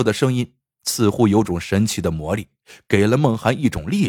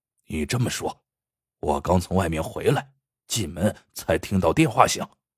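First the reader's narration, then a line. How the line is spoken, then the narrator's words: Low whisper close to ear. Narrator (Chinese): 劫匪用嘴巴贴住明娟的耳朵，低声说道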